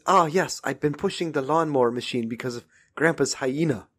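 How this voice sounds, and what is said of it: Put-on accent of a film character. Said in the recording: “talking in the dog's accent ... you would try to mimic his voice”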